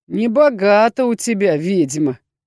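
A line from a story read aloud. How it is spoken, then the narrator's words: Mocking pronouncement. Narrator (Russian): изрек насмешливо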